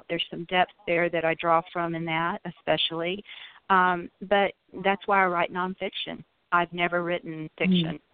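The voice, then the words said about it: Southern American accent. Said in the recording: “you say I was born in California and have a Southern accent”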